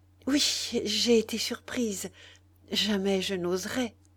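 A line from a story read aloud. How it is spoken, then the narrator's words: Stammering, feigned embarrassment. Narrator (French): balbutiait-elle en jouant la confusion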